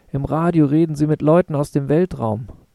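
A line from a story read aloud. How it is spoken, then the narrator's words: Older sister calling from window. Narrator (German): meine ältere Schwester rief mir vom Fenster aus zu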